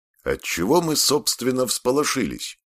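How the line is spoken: Cheerful. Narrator (Russian): бодро сказал он

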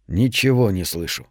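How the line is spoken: Soft reply. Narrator (Russian): мягко ответил

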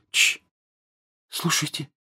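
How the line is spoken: Sudden whisper. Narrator (Russian): Джинни вдруг прошептала

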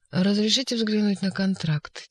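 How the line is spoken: Quiet request. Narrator (Russian): тихо попросил Степа

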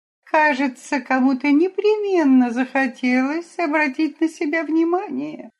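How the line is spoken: Sour-sweet voice. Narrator (Russian): какая-то дама кисло-сладким голосом заметила

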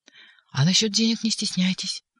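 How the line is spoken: Whispered aside. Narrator (Russian): шепотом добавил он

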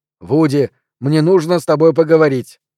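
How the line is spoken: Shout. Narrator (Russian): выкрикнул

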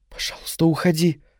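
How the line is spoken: Whisper. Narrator (Russian): прошептала она

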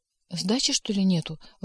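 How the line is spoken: Timid. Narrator (Russian): робко спросил бухгалтер

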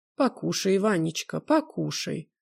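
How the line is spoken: Mother's tender coaxing. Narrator (Russian): ласково упрашивает мать

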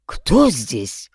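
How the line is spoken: Frightened question. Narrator (Russian): испуганно спросил Егоров

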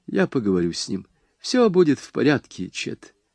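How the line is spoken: Calm. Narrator (Russian): Лола спокойно сказала

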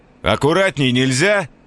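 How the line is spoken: Pained shout. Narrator (Russian): крикнул Бувайсар

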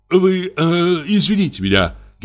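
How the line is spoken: Stammering, gasping, repeating. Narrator (Russian): говорил он, заикаясь, судорожно вздыхая и повторяясь

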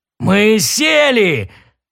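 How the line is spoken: Joyful roar. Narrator (Russian): радостно взревел Дрил

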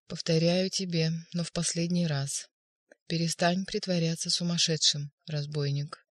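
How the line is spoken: Soft monotone. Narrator (Russian): произнес Пилат мягко и монотонно

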